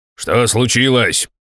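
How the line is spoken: Barked. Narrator (Russian): рявкнул я

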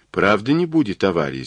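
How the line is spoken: Plain. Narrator (Russian): спросила Джен

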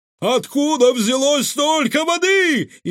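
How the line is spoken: Frantic screaming. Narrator (Russian): истошно завопил управляющий

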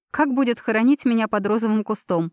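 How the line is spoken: Nervous laugh. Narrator (Russian): нервно хохотнула я

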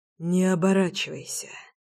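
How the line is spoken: Hoarse whisper. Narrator (Russian): хрипло шепчет знакомый голос

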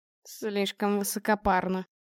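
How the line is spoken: Muttering. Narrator (Russian): пробурчал Павел

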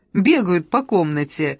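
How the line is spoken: Laughing. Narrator (Russian): рассмеялась Анна

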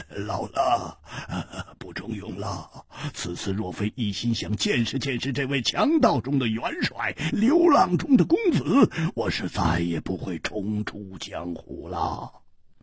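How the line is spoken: Laughing. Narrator (Chinese): 秃鹰摇头笑

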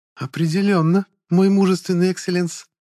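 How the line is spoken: Languid affectionate cooing. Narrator (Russian): томно проворковала аристократка, моментально превратившись в ласковую кошечку

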